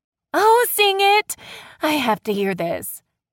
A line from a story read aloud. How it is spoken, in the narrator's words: Ryan said with a laugh